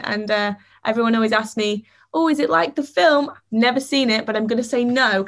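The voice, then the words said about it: Northern English Grimsby accent. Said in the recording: “That's a way cooler accent than London... the northernness that is the Grimsby accent”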